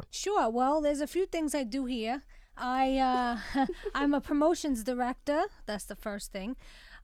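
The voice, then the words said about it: Distinctive regional accent. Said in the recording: “your amazing accent”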